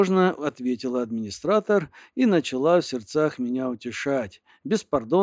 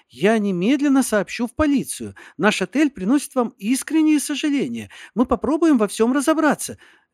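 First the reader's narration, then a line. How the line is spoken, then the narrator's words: Babbling. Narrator (Russian): лепетала она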